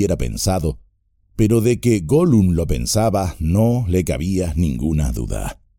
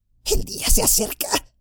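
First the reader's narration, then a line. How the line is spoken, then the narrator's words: Fearful murmur. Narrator (Spanish): murmuró, como si el día pudiese oírlo y saltarle encima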